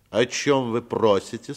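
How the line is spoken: Stern, slightly nasal question. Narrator (Russian): спросил он строгим голосом и несколько в нос

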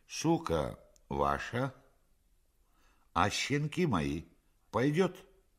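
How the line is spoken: Merry laughter. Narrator (Russian): весело расхотался

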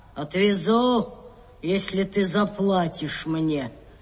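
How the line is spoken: Gruff grumble. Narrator (Russian): Капитан проворчал

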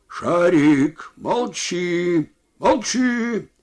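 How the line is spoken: Shouted at dog. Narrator (Russian): крикнул другой на собаку

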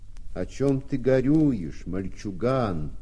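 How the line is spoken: Deep bass question. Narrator (Russian): кто-то басом спросил

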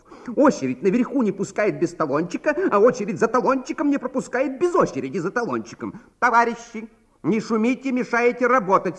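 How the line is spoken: Angry receptionist. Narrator (Russian): сердито сказала регистраторша

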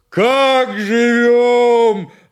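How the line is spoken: Yelled again. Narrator (Russian): опять завопил Семен

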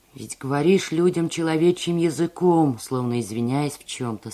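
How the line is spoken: Plain. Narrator (Russian): сказал лакей

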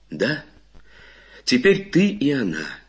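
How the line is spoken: Calm. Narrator (Russian): спокойно говорит Татьяна Ивановна

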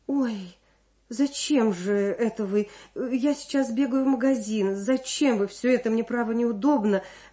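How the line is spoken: Flustered, fussing. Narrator (Russian): растерянно суетилась рядом Людмила

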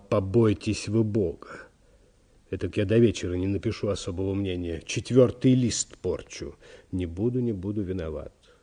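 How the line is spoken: Apologetic whisper. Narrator (Russian): извинил секретарь и продолжал шепотом

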